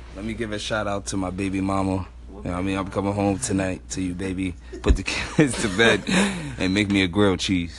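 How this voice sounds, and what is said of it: Put-on sexy voice. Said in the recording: “Because I'm using my sexy voice. I'm using my sexy voice. That's my. That was my Luther.”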